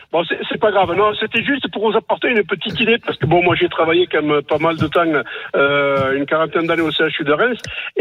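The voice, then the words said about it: Speaks with a regional accent. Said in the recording (French): “avec mon accent, c'est pas évident”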